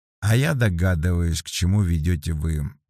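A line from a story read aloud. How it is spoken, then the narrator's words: Sigh. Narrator (Russian): вздохнул Вербин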